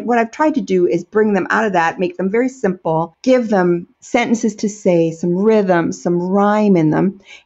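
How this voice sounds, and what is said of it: Strong American accent. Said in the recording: “I'm not a natural Scots speaker, as you can tell ... I have such a strong American accent”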